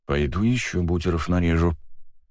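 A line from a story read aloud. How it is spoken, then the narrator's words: Quiet. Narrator (Russian): тихо сказал Макс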